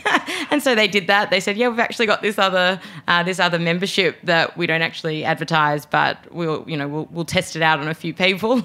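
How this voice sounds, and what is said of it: Australian accent. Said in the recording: “I'm Australian, as my accent is alluding to.”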